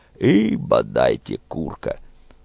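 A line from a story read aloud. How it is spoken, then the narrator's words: Good-natured grumbling. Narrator (Russian): Он то бурчал незлобливо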